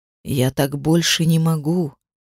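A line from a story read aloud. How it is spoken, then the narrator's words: Whispered. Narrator (Russian): прошептал он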